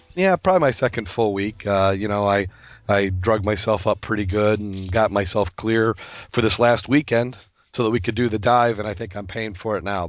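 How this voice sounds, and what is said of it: Hoarse voice, close to losing it. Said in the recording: “if I don't lose my voice, I was hoping I'd be over this cold by now, but it seems to be hanging on.”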